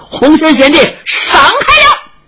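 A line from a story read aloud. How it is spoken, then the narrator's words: Shouting while leaping. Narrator (Chinese): 石老侠一边纵身一边喊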